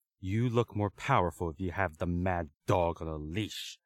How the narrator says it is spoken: Lung growled

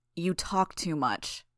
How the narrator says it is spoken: Bitch snarled

